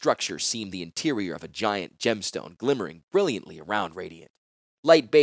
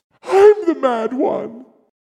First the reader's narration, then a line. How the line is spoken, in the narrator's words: She gasped